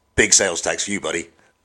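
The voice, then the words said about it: Put-on American accent. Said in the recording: “Your American accent is the highlight of this entire podcast.”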